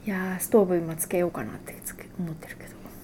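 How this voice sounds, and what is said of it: Whispering. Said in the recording (Japanese): “ささやき。”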